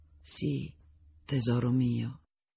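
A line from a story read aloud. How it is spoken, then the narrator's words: Deep voice whispering in ear. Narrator (Italian): Kay continuava a sorridere e lui sentiva quella sua voce profonda che gli sussurrava all'orecchio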